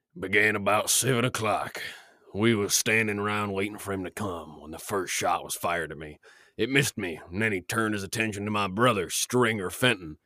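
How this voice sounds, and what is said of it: Gritty old Western sheriff voice. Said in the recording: “gotta do like a proper ... accent ... To give you like a gritty ... Sheriff? ... Let's hear a good impression”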